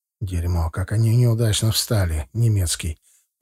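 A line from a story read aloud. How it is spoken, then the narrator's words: Quiet grumble, big man. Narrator (Russian): проворчал негромко здоровенный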